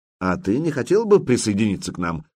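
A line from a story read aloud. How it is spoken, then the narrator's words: Plain. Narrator (Russian): спросил Духарев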